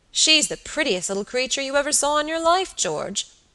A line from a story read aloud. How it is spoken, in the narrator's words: he cried